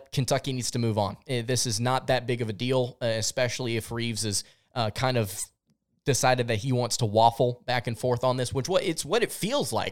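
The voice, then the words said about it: Frustrated, exasperated tone. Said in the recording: “you can hear the kind of the frustration in my voice”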